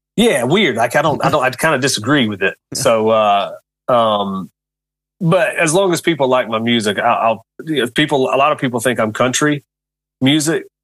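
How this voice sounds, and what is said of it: Southern American country accent. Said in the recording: “I talk country... I am country boy”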